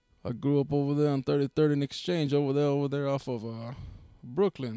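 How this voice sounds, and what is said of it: New York accent. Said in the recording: “you guys sound like you're from New York ... this is a New York accent”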